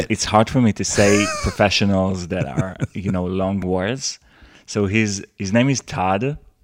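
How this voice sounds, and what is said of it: Israeli-accented English. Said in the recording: “I'm a foreigner. I have an Israeli accent.”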